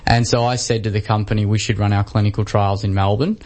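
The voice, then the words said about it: Australian accent. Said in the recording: “you can tell by my accent, I'm not American... I was from Australia”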